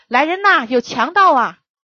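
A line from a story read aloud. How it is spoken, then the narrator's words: Tense loud shout. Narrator (Chinese): 我紧张了一下，本能地大声喊道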